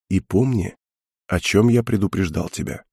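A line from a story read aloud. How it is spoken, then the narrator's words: Very quiet. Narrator (Russian): Прорицатель сказал очень тихо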